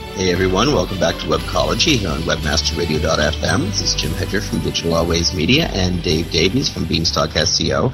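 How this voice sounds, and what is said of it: Crisply enunciated NPR host voice. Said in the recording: “I'm trying out my NPR voice ... They have this level of enunciation in their radio hosts.”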